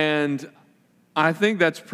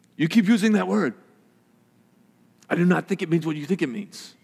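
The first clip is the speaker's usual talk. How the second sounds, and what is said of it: Inigo Montoya impression. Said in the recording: “That's a pretty good impression. One of my best I've done up here. Inigo Montoya.”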